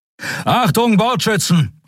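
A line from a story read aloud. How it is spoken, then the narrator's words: Called out. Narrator (German): rief er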